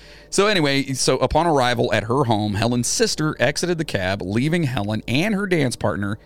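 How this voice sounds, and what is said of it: Usual voice. Nothing is said of it.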